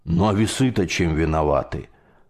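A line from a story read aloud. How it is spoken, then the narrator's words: Grumbled. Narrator (Russian): проворчал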